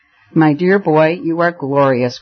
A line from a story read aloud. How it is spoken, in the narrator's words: cried Rupert, with laughter in his blue, bright eyes